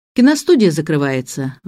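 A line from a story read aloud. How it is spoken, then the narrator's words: Sighing. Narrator (Russian): вздохнул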